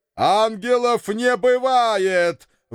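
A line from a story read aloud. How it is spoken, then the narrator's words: Father yelling loudly. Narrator (Russian): в голос заорал папочка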